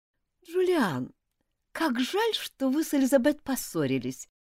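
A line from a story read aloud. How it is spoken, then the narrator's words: Sugary sweet voice. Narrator (Russian): начала она елейным голоском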